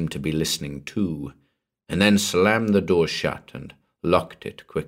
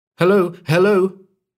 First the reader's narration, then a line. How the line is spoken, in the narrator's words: cried into the mouthpiece